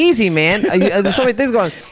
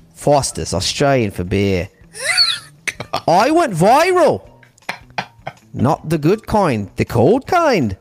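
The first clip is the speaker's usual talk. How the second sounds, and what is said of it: Mixed Australian, Irish and English accent. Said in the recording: “let's try Australian accent ... Mix between an Irish, I know, Australian, and English. ... accent.”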